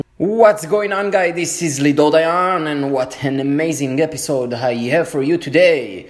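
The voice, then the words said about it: Speaks with a Jewish accent. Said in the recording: “with the sexy Jewish accent”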